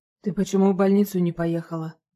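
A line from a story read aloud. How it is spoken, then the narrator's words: Hoarse question. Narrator (Russian): спрашивает у нее хрипло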